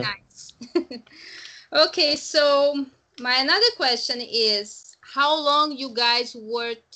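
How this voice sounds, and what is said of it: Latina accent in English. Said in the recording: “I don't like my accent much. And I think all Latinas basically have the same accent ... We all speak funny”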